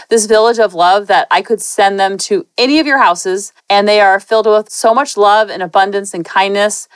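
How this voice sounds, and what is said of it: Emotional voice cracking. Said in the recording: “my voice is cracking”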